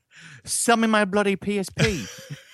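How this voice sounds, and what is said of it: Unconvincing put-on British accent. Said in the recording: “I'm trying to imagine you with a British accent, and I can't do it. ... I rest my case”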